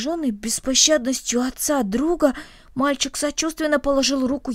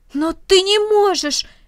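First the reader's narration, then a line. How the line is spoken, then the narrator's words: Exclaiming. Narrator (Russian): воскликнул Рома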